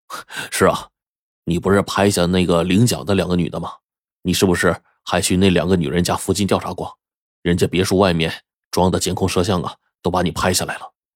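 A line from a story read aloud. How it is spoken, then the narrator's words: Cold sneering. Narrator (Chinese): 他哥就冷笑说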